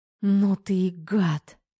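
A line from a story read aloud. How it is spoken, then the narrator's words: Hoarse, frustrated whisper. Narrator (Russian): Сипло, сгорая от неудовлетворенного желания, прошептала Тома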